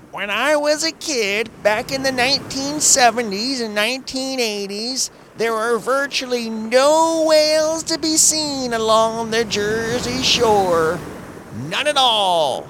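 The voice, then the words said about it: Imitated old man's voice. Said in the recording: “my best old man impression”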